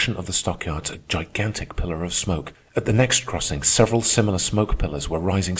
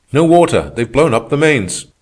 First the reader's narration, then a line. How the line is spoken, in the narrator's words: we heard one shout in reply